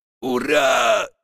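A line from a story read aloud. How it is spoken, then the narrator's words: Shouted. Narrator (Russian): закричал Ау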